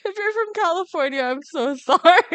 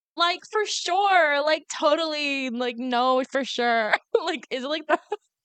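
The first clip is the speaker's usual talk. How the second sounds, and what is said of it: Exaggerated Valley Girl accent. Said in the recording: “he's, like, mocking their Valley Girl accents because, okay, maybe I'll try it ... remember when you did this terrible accent?”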